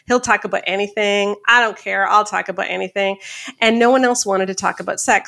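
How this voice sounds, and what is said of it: Canadian accent. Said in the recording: “I'm in Canada. That's why my accent's funny.”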